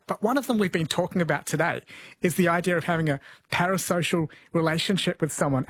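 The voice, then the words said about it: Faint New Zealand accent. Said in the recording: “an accent from home ... you can still pick the New Zealand accent ... I thought it sounded Australian”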